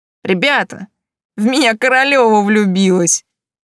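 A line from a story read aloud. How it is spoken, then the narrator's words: Loud, mocking. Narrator (Russian): Парень обидно захохотал, а потом громко сказал, обращаясь к остальной группе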